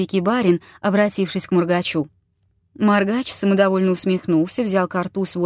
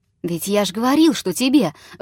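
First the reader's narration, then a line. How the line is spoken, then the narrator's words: Exclamation. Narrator (Russian): воскликнул обалдуй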